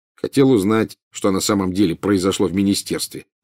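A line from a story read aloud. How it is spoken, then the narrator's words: Plain. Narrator (Russian): ответил Гарри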